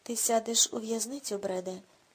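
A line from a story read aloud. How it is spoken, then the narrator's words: Cold. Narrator (Ukrainian): холодно кинув Рудольф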